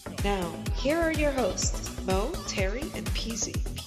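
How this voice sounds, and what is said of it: Sexy, sultry announcer voice. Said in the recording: “That was a very sexy voice.”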